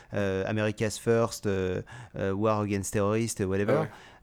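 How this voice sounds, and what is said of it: English words with French accent. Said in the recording (French): “avec un bon accent français”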